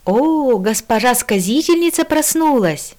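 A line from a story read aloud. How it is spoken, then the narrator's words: Exclaiming. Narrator (Russian): воскликнул купец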